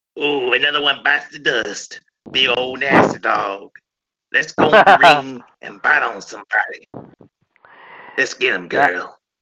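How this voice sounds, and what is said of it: Imitates another person's voice. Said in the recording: “I know how to do a good impression of him ... That's awesome. That is good. That's very good ... That's really good.”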